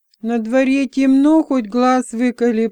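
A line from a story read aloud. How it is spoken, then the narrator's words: Groaning. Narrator (Russian): простонал Флар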